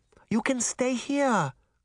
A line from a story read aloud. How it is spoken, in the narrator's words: Granny Relda pleaded